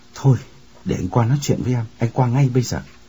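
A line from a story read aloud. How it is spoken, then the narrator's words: Trembling voice. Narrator (Vietnamese): Chàng run run bảo Kim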